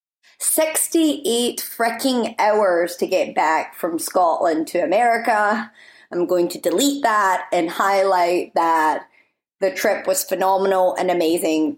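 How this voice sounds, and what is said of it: Strong Scottish accent. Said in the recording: “I've been in Scotland, so if you're wondering why my accent is possibly, potentially, maybe a little bit stronger than previous episodes ... I love my accent.”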